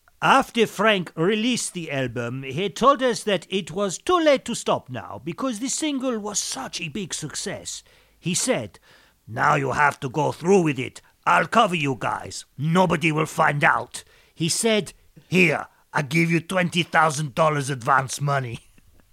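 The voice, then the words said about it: Mexican mafia boss accent. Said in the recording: “changing the accent ... I like the Mexican mafia boss.”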